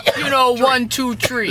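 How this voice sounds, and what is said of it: Attempted Chicago accent, sounds Brooklyn. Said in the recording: “can't do the Chicago accent really very well, so it's definitely just a Brooklyn accent”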